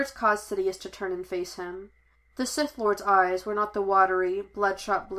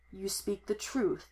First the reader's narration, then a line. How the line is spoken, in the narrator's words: murmured, smiled, pleased